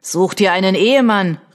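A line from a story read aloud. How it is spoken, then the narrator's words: Calling out. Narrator (German): rief ein Dritter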